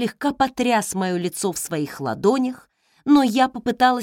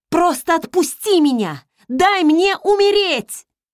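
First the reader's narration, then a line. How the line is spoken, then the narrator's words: Desperate scream. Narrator (Russian): Я закричала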